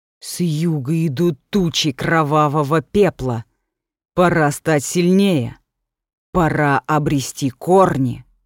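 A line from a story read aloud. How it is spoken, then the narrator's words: Low voice. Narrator (Russian): она низким голосом произнесла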